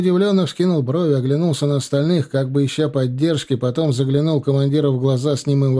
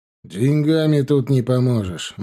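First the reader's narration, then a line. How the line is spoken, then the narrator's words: Gloomy. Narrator (Russian): мрачно заметил Була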